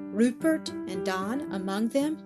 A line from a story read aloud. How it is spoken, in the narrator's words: she faltered, half inquiringly